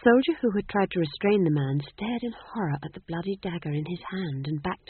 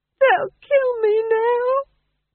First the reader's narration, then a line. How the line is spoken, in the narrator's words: he wailed